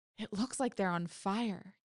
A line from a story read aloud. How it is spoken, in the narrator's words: Katie whispered, her eyes huge